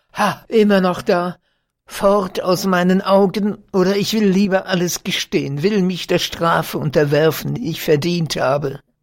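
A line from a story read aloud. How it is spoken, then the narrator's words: Shouted again. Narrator (German): rief er wiederum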